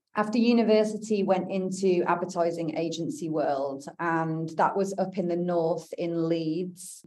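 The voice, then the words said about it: British accent. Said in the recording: “I was born and raised in the UK, as you can probably tell by the accent.”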